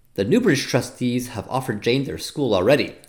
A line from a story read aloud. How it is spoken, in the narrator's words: said Diana